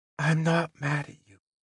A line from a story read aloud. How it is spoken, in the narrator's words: she said so quietly that I thought it was my imagination at first